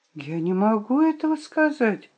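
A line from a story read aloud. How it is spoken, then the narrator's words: Whispered. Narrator (Russian): прошептала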